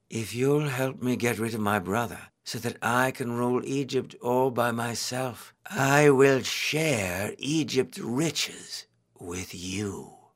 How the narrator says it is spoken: Cleopatra said sweetly

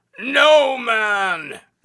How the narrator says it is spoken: The Cyclops yelled

